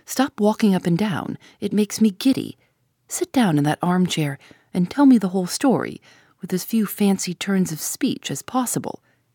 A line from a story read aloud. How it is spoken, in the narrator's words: said Tuppence firmly